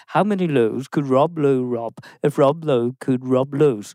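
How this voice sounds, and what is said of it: Scottish accent, slow careful speech. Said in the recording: “because I'm Scottish and R's are quite hard ... You slightly changed your accent as well ... It felt slow ... A little slow ... for a Scotsman”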